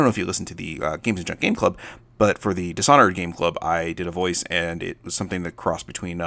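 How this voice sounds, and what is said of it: Usual voice. Nothing is said of it.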